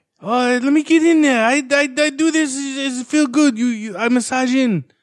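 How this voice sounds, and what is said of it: Imitates another person's accented voice. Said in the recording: “What's his voice sound like? Is it creepy? ... Yeah, it's kind of doe-ish. ... Oh, he's got an accent? ... Yeah.”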